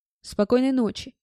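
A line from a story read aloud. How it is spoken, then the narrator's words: Grumbling. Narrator (Russian): буркнул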